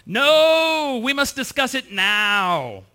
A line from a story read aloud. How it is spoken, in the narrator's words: she yelled back